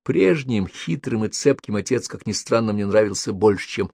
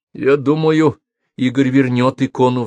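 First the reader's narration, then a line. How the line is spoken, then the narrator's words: Agitated. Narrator (Russian): взволнованно произнесла я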